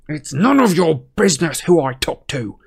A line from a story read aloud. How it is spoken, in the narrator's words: snarled